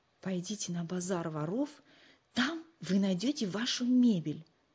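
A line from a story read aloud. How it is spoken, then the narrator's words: Undertone. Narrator (Russian): вполголоса сообщил Нату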